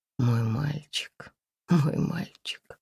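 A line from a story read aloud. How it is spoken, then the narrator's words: Soft murmur. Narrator (Russian): тихо приговаривала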